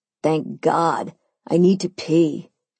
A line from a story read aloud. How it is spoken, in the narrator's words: Simon groaned, as he'd been doing for the past 20 or so miles